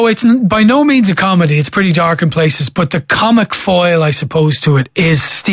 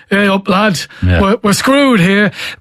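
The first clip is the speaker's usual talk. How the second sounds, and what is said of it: Northern English accent impression. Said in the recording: “that northern ... I'm doing a Mick McCarthy impression”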